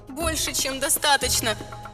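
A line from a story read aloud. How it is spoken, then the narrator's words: Silent mental shout. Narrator (Russian): мысленно закричала ему я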